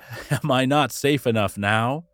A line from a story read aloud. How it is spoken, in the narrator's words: Theseus laughed and said